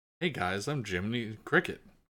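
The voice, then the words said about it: Jiminy Cricket, transatlantic accent. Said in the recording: “the original Jiminy Cricket was like... He just sounded like a stand-up transatlantic accented dude”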